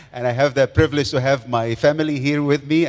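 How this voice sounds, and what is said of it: Egyptian accent. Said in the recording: “Everybody's going to ask about my accent ... I talk like Egyptian”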